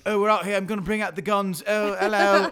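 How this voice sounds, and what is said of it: Mock macho British accent. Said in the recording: “His accent really bothers me... he goes from like being macho British guy”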